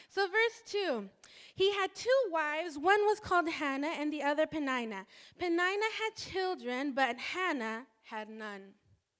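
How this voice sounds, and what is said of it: Mexican Spanish accent in English. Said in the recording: “I'm Mexican, and I speak Spanish. Spanish is my first language, so I might pronounce things with my Spanish accent.”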